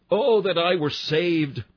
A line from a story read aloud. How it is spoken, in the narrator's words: We cried out